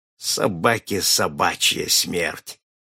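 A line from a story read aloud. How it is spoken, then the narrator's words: Through gritted teeth. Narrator (Russian): процедил сквозь зубы судья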